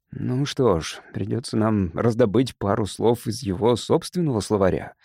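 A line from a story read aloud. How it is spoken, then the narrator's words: Sighing. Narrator (Russian): вздохнул Макс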